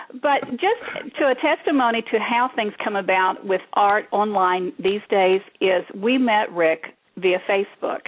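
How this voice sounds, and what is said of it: Heavy Kentucky accent. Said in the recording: “it is laced with a heavy Kentucky accent”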